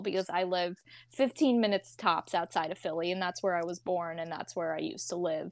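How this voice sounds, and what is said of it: Strong Philadelphia accent. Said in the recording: “you can hear it in my beautiful – elegant accent... Philly accent... I know you have a strong Philly accent”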